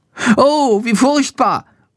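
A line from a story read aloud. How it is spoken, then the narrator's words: Horrified cry. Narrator (German): ruft er entsetzt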